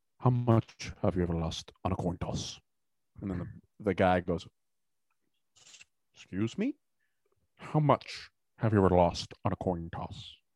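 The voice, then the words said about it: Mumbled, thick-mouthed movie villain impression. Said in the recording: “here's my Javier Bardem impression ... His mouth doesn't move that much, but that's how he talks like he's got peanut butter in his mouth.”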